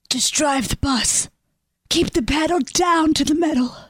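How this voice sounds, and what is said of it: Whispering. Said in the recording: “I don't know why you're whispering.”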